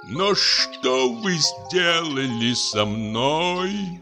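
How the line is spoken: Moan. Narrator (Russian): простонал он

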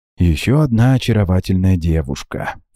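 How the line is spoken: Ingratiating host. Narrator (Russian): вкрадчиво произнес хозяин дома

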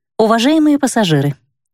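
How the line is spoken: Pleasant female computer voice. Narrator (Russian): заговорил приятным женским голосом компьютер

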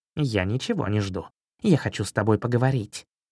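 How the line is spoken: Calm reply. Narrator (Russian): спокойно ответил кот

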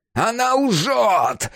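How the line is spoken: Wailing. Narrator (Russian): вопил Исайя

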